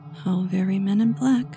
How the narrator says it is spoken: she muttered

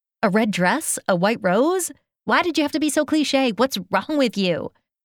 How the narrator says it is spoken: she yells

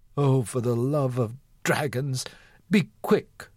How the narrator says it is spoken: snapped Cleopatra

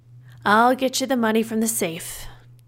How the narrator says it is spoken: Da said

